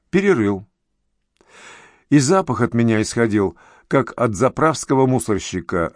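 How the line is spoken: Laughing heartily. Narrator (Russian): расхохотался полицейский

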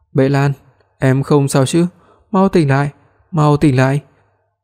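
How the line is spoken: Trembling voice. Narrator (Vietnamese): Hoắc Minh Hách âm thanh run rẩy nói

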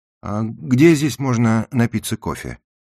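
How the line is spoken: Asked in indifferent tone. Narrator (Russian): Желая скрыть это неожиданное чувство, я самым безразличным тоном спросил проводника

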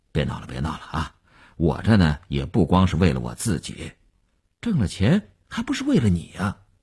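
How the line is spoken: Brief laugh, restrained. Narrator (Chinese): 刘文庆笑了一下，及时收住说

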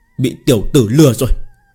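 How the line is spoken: Furious, trembling. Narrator (Vietnamese): Trung Dương Húc tức giận người run run

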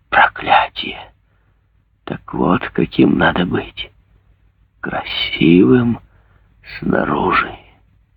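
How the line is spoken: Whisper through gritted teeth. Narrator (Russian): Заскрежетав зубами, он прошептал

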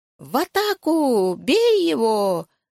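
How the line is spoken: Commander shrieking. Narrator (Russian): завизжал наш верховный главнокомандующий

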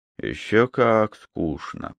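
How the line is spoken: Mutter. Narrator (Russian): пробормотал МакГрегор

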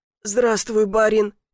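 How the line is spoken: Hoarse wheeze. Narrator (Russian): прохрипел Семен Петрович

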